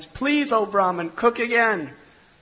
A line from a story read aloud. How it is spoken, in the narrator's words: the whole family came, and they were all pleading with him